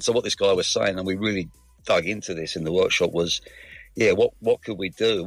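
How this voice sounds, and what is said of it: Mixed London and Australian accent. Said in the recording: “You don't sound 100% Aussie. ... it is a lovely mix of London and Australia”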